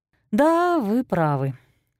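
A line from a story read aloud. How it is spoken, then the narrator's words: Sigh. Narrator (Russian): вздохнула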